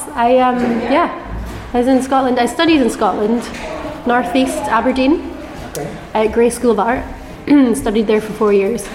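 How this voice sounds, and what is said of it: Scottish accent. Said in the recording (Dutch): “where from your accent, where does it come from? ... I'm from Scotland.”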